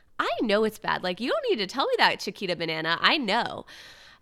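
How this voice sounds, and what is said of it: Valley girl voice with uptalk. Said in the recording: “sound like a ditzy valley girl ... my uptalk and my valley girl voice ... I uptalk and slip into Valley Girl”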